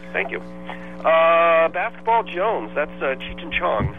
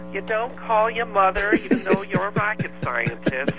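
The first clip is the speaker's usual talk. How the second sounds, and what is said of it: Imitates another person's voice. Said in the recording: “Pretty good impression”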